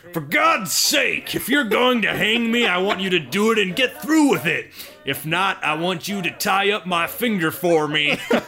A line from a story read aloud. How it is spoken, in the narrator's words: Boone yelled out to them and to the crowd